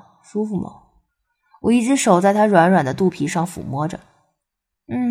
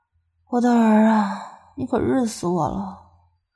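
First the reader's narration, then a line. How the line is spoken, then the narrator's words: Breathy murmur. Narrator (Chinese): 口中吐着气儿，喃喃道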